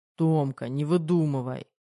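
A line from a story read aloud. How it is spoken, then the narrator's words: Snort. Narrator (Russian): Фыркнул Кирилл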